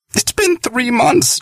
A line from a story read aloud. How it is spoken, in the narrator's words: John exclaimed